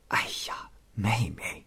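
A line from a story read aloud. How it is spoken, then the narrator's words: Quiet. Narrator (Chinese): 王氏小声说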